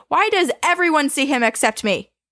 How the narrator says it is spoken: stamping her foot and yelling, she said

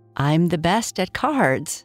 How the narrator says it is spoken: Kai Kai said, laughing

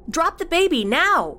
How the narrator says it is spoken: Cassie yelled out again

